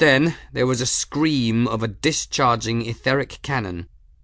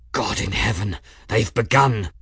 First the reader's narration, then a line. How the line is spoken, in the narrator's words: Journeyman breathed